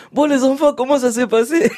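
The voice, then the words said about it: Imitated Congolese accent. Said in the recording (French): “avec son accent congolais”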